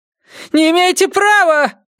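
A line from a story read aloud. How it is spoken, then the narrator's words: Shouted. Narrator (Russian): крикнула она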